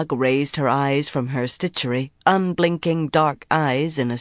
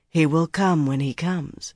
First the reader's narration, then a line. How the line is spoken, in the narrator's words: she said calmly